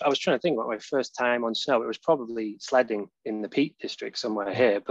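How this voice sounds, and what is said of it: Northern English accent with Canadian twang. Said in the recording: “I'm a Cheshire boy ... from Poynton, just outside Manchester ... The accent ... I moved to Canada when I was 18 ... clearly picked up some of your twang accidentally. Now I'm a little mid-Atlantic, maybe.”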